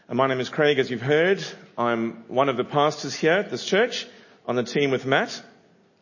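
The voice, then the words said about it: South African English accent. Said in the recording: “this funny accent is, it's a South African accent.”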